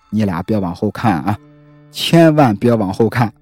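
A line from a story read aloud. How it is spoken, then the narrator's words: Quiet mutter. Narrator (Chinese): 小张嘴里啊还小声的给他俩嘀咕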